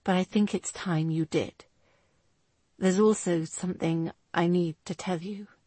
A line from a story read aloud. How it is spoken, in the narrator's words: he replied quietly